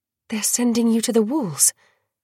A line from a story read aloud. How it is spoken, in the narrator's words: Dior breathed